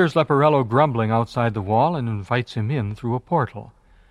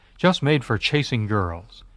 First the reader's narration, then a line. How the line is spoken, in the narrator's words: he exclaims